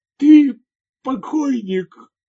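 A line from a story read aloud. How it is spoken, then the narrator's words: Forced-out strained words. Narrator (Russian): наконец выдавил он из себя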